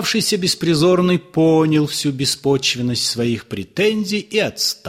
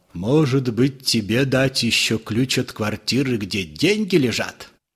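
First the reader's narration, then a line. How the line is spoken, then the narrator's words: Quiet. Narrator (Russian): тихо сказал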